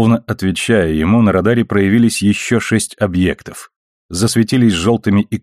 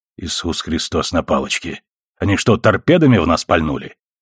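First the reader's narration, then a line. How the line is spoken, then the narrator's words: Through gritted teeth. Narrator (Russian): процедил Макдауэлл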